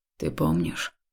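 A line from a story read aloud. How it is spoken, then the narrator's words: Hoarse question. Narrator (Russian): хрипло спросил он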